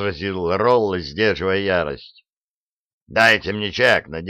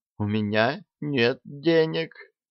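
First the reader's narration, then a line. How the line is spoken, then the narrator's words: Quiet voice. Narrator (Russian): тихим голосом сказал он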